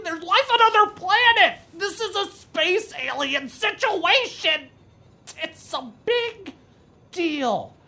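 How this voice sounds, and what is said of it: Yelling. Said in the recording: “I'm sorry I'm yelling.”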